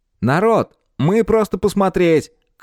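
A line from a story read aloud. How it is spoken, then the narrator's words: Shouting. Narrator (Russian): крикнул им Оберт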